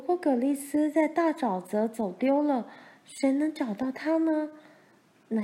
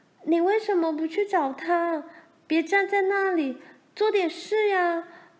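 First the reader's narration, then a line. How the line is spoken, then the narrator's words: Loud shouting. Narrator (Chinese): 玲玲大声叫着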